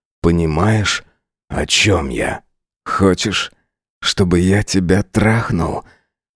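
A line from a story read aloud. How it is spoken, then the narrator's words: Hoarse whisper. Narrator (Russian): Хрипло прошептал я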